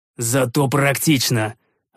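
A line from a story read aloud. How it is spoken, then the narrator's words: Snapping back. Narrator (Russian): огрызнулся я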